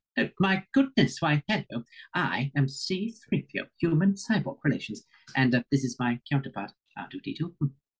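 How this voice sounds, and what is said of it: C-3PO voice impression. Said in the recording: “you can do the voice too”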